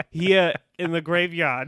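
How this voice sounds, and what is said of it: Put-on Boston accent, non-rhotic. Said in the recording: “I was doing Faith's Boston accent. ... I don't think it sounded anything like that. ... It's non-rhotic.”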